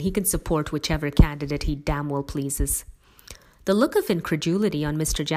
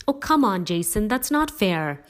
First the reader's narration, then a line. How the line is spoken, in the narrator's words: he exclaimed